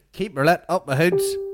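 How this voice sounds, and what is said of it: Northern Irish accent. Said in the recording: “What's that accent? Ballymena? Or what is that?”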